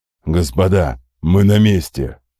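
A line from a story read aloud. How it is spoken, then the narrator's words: Growling. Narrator (Russian): прорычал Ярлах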